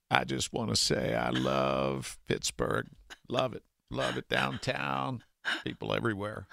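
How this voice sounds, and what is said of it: Bill Clinton impression. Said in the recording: “your impression, please ... my favorite ... impression ... Bill Clinton.”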